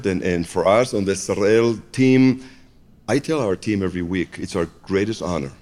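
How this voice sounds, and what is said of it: Israeli-accented English. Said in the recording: “He sounds Israeli though ... it's an accent I worked on all my life. I cannot shake it off.”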